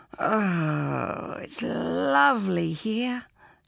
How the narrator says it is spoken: purred

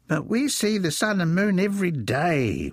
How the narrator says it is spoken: whined Wilfred

